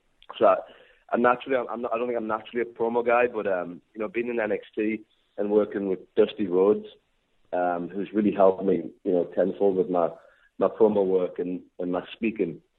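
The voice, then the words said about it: Strong accent, hard to understand. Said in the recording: “I've got a strong, very strong accent that, you know, a lot of people can't understand.”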